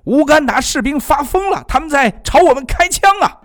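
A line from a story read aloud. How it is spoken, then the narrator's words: Alarmed shout. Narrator (Chinese): 一名恐怖分子朝他们的同伙喊了起来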